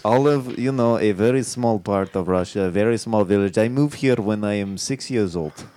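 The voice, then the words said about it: Thick put-on Russian accent. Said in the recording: “you have a very thick accent.”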